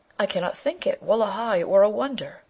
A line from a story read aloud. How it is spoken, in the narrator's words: Still he exclaimed